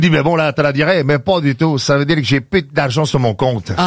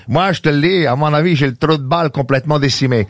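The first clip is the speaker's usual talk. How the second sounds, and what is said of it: Exaggerated put-on Québécois accent. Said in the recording (French): “les expressions québécoises ... Tu l'as fait avec l'accent exacerbé.”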